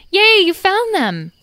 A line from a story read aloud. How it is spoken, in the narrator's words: Edwin cried out